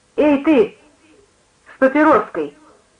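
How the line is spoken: Preacher woman exclaiming. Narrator (Russian): воскликнула проповедница

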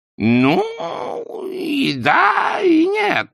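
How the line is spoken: Strained, sinking in bog. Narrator (Russian): выдавил Хаккардли, ушедший в трясину уже по колени

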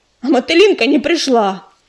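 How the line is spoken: Angry declaration. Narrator (Russian): сердито сверкнула глазами и заявила

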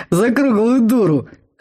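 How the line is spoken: Troll guffawing. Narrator (Russian): хохотнул тролль

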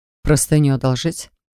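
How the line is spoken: Snorting. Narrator (Russian): хмыкнул Джар

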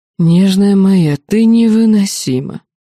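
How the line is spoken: Sudden moan from a ruler. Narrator (Russian): простонал неожиданно властитель Эрадораса

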